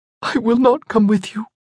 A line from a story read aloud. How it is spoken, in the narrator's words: choked out past the lump in her throat